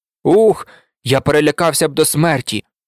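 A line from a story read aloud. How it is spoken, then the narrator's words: Exclaiming. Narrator (Ukrainian): вигукнув Сем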